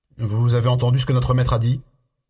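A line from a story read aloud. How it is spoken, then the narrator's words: Growling. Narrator (French): grogna-t-il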